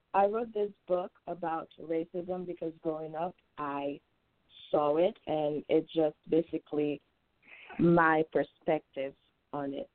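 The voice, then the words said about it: Haitian accent. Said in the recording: “If you can tell from the accent, I am from Haiti.”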